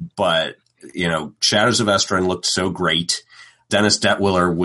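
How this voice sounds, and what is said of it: Usual voice. Nothing is said of it.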